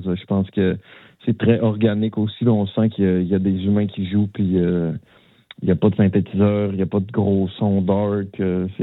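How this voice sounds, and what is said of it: Saguenay–Lac-Saint-Jean Quebec French accent. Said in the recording (French): “l'accent du Saguenay, Lac-Saint-Jean”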